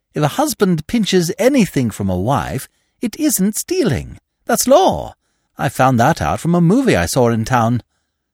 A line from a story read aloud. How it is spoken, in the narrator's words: continued Freddy, so far forgetting the respect due from a nephew